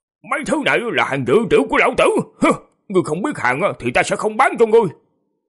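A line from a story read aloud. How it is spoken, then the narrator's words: Old man, plain. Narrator (Vietnamese): Lão nhân rồi nói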